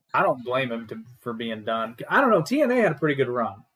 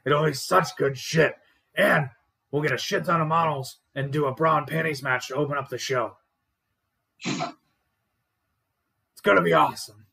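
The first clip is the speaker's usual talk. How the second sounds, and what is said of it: Imitates another person's voice. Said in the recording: “That's a terrible Vince McMahon impression”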